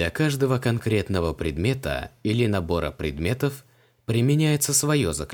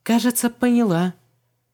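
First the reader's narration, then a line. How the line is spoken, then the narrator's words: Uncertain. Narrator (Russian): неуверенно кивнула Вон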